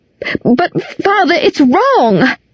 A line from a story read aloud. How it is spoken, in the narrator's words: I cried